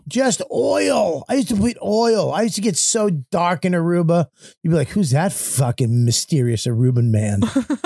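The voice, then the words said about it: Boston accent. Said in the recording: “with a Boston accent”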